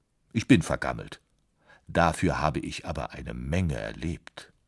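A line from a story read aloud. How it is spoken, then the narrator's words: Dry piano voice. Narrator (German): sagte das Klavier trocken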